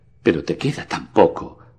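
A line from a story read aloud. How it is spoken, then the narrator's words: Moaning. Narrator (Spanish): gimió la voz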